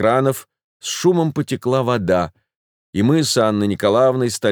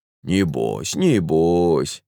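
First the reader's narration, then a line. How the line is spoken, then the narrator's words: Muttering midwife. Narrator (Russian): бормотала акушерка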